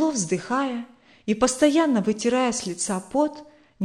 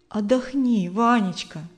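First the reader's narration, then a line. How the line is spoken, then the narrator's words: Gentle coaxing woman. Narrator (Russian): ласково уговаривала его Наталья Александровна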